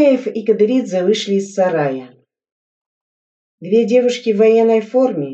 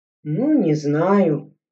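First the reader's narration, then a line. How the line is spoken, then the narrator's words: Uncertain drawl. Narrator (Russian): неуверенно протянул Игорь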